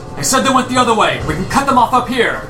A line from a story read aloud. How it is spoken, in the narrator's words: a voice yell